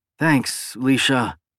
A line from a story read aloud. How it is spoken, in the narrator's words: Dan said, his voice somewhat weak